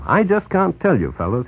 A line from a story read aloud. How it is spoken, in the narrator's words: he said